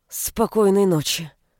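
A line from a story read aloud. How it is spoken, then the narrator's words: Through gritted teeth. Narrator (Russian): сквозь зубы произнесла я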